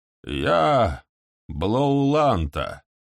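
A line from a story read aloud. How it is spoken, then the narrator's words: Creaky voice. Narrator (Russian): скрипучим голосом проговорила она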